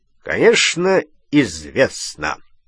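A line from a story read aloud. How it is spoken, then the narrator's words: Plain. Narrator (Russian): ответил Вернон Дурсль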